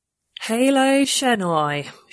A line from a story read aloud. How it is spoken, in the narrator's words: she said flatly